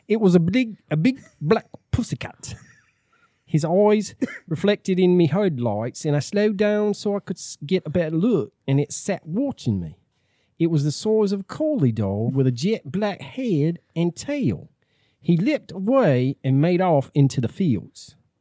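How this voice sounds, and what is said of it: Put-on English accent. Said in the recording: “Are you doing this in an English accent? ... I can.”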